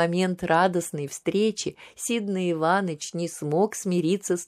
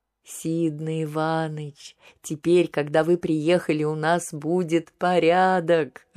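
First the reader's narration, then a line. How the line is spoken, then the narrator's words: Laughing. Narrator (Russian): рассмеялся Алексей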